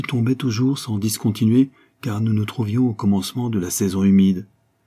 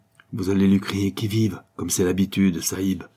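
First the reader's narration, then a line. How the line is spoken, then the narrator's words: Murmured. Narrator (French): murmura Abdullah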